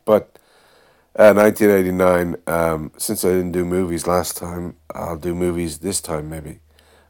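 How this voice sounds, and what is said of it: Sick-sounding voice. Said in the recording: “Forgive my voice. I'm just over a bit of a flu here. ... Bit of a major cold or a bit of a smaller flu ... I still kind of have a little bit ... I might have to just cough every few seconds a lot.”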